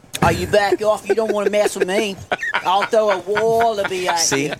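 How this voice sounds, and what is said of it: Put-on Australian accent. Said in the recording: “he does a great Australian accent.”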